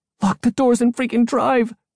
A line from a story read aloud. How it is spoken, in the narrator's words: she screamed